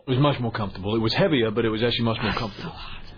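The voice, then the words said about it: British accent, possibly Welsh. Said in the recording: “What accent is that? Is he from Wales? ... I think he's from Wales. That sounds like a Welsh accent to me ... British accents”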